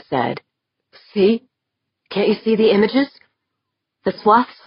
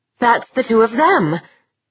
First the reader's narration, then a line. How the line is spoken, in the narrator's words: she yelped